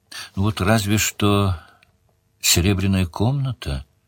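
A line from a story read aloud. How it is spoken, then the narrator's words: Hesitant. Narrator (Russian): неуверенно сказала Делия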